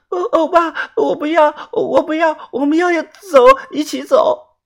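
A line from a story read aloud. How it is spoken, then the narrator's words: Tearful crying. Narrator (Chinese): 泡菜妹泪眼婆娑，她哭着说道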